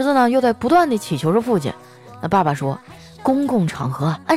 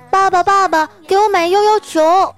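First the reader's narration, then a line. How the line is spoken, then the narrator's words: Child speaking. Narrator (Chinese): 儿子说了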